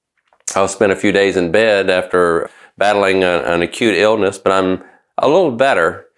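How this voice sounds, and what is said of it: Slightly different, sick-sounding voice. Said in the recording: “I was sick, and you may can tell that my voice is a little bit different today”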